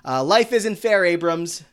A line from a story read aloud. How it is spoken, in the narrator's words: Becky screams from the lobby